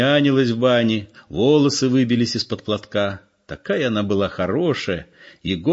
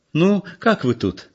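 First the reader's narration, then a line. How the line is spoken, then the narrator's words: Cheerful. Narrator (Russian): спросила она весело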